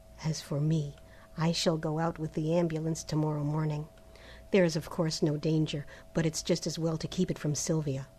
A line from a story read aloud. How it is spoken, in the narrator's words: dropping his voice and speaking in English